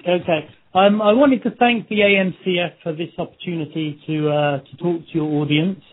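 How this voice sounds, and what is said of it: Noticeable foreign accent. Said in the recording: “I hope my accent doesn't put too many of you off, and I hope that too much isn't lost in translation.”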